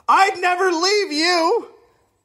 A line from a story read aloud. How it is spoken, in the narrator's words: he yelled